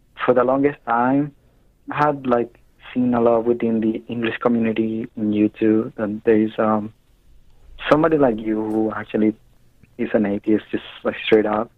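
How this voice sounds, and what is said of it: Hispanic-accented English. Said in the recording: “obviously you can tell by my accent that I'm not from here ... I'm a Hispanic myself”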